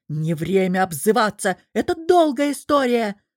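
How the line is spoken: Breathless yell. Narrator (Russian): заорал Лекс, задыхаясь

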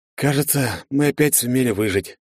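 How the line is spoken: Tired voice. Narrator (Russian): произнес я уставшим голосом

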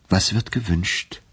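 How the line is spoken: Gentle question. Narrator (German): fragte er sanft

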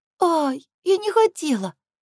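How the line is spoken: Pitiful babbling. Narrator (Russian): лепечет несчастным голоском

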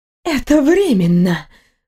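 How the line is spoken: Furious breathy exhale. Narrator (Russian): выдохнула женщина с яростью

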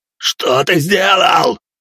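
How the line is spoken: Yelling. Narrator (Russian): орал он

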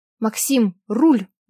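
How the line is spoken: Urgent shout. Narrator (Russian): выкрикнула я

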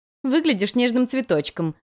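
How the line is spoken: Giggling. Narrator (Russian): хихикнула подруга

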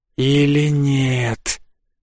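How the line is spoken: Hissed, cobra. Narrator (Russian): прошипела кобра

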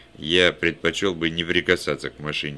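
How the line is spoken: Plain. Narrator (Russian): сказал я

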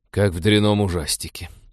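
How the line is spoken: Scornful snort. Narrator (Russian): фыркнул Вениамин

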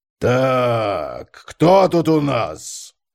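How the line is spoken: Drawling, mocking baby talk. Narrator (Russian): протянул и издевательски засюсюкал

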